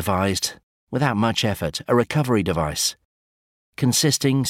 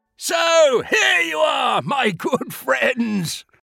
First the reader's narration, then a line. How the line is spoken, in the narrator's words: roared King Waldo, to deafening effect